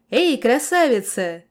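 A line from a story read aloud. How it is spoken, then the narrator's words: Cheerful shout. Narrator (Russian): весело заорал я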